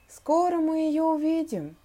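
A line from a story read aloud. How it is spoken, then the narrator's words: Gloomy drawl. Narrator (Russian): уныло протянул Том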